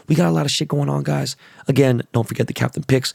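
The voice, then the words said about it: Hoarse, strained lost voice. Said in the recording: “Sorry I lost my voice, guys. I will get it back. Gonna drink some tea with some honey”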